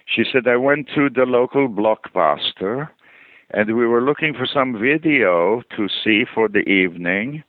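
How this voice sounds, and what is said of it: Imitated accent of foreign actress. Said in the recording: “I'm trying to do her accent.”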